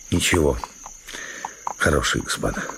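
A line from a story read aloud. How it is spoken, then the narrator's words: Muttering man. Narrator (Russian): бормотал он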